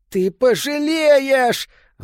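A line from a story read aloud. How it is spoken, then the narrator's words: Yelled. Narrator (Russian): заорал Питеркин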